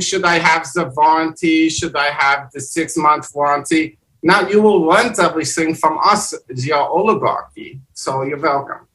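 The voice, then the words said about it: Convincing put-on foreign accent. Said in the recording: “Your accent is actually really good. I was waiting for you to slip”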